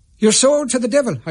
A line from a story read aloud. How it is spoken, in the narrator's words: I shouted